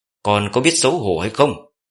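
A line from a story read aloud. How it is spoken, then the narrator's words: Power-charged loud yell. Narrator (Vietnamese): Thẩm Bạch cũng vận công hét lớn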